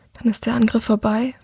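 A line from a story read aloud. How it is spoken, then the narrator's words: Quiet question. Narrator (German): fragt sie leise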